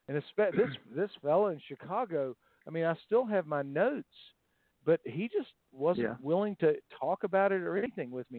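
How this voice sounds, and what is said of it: Southern American accent. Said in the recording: “I'm still from the South. ... in England, they love my accent.”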